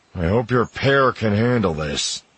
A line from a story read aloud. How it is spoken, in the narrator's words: Solo growls